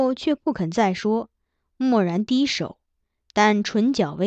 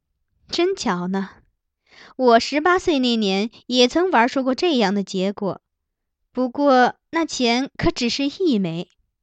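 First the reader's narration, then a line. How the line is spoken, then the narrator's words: Laughing. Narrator (Chinese): 皇后亦笑道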